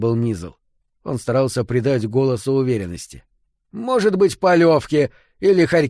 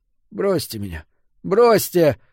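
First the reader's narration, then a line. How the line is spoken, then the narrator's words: Desperate moan. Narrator (Russian): застонал Фрид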